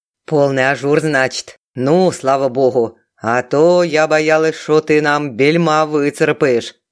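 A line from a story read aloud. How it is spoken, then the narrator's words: Deep bass voice. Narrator (Russian): Басом заметила Галина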